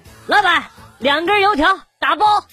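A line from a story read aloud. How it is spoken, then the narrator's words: Student shouting. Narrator (Chinese): 有学生喊我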